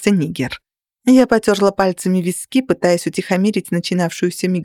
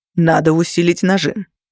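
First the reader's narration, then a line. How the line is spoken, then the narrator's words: Gloomy suggestion. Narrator (Russian): мрачно предложил Родни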